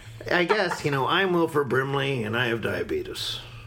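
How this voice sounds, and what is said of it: Imitates another person's voice. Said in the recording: “my Wilford Brimley impression”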